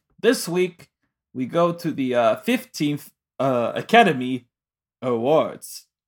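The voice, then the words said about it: Put-on accent. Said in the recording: “Why do you have an accent again?”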